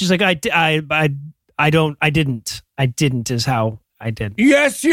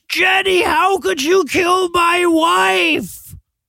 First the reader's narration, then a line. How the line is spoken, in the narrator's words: he screams